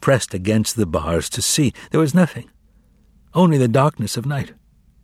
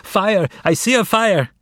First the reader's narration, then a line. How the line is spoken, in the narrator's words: she nevertheless continued to scream